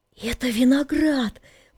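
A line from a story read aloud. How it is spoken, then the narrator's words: Whisper. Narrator (Russian): прошептал Валерка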